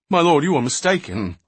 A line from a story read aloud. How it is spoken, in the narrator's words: the one pleaded hastily